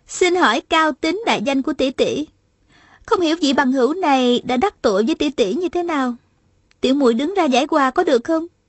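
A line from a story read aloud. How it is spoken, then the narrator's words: Smiling question. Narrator (Vietnamese): Hà Thiết Thủ mỉm cười hỏi lại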